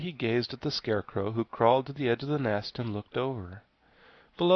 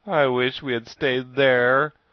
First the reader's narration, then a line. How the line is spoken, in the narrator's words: moaned Jack